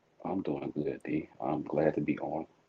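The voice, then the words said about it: Smooth, sexy low voice. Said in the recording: “the smooth and sexy voice”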